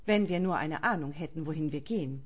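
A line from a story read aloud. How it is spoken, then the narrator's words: Calm leader's reply. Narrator (German): antwortete der Anführer ruhig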